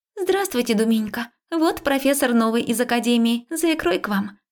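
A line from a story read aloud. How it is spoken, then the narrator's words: Cheerful chirping. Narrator (Russian): весело прощебетала подружка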